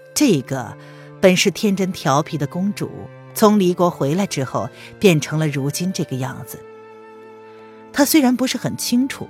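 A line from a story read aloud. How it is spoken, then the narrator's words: Sighing, raised gentle voice. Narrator (Chinese): 叹了口气，扬声轻柔的说道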